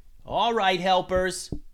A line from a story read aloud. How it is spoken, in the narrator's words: yelled Nikos